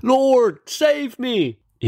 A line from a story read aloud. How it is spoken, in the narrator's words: beginning to sink, he cried out